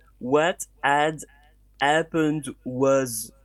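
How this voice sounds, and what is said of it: Put-on French accent. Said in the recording (French): “essayer de le faire avec un accent français”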